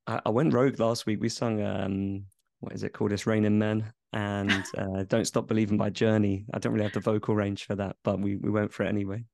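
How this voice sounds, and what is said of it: Slightly husky, partly lost voice. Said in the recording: “I've got a little bit of a lost my voice slightly because it was our Christmas party at the weekend and we did karaoke ... that's why I'm slightly husky. This isn't my normal voice”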